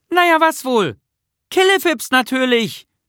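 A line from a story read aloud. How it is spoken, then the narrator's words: Called out. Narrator (German): rief Nisse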